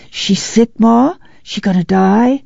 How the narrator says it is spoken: whispered harshly

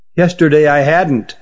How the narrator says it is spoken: said Runagar

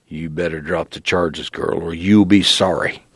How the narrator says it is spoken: He growled

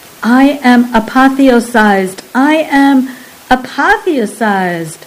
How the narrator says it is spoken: Balk exclaimed excitedly

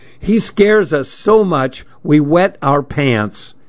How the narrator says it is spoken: he shouted over the blast of air, which was screaming through the open windows

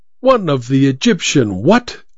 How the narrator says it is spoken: exclaimed the mummy

